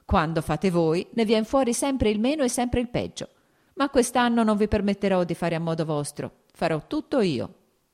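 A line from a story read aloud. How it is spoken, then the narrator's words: Laughing. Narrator (Italian): aggiunse ridendo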